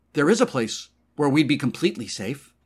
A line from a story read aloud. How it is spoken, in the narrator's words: Gloria exclaimed, her voice suddenly loud in his ears